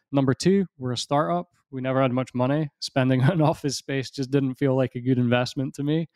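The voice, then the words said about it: Scottish accent. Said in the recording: “I live in Scotland, as you can probably tell from the accent.”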